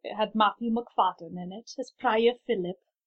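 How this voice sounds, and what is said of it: Bad put-on Welsh accent. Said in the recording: “my terrible Welsh accent”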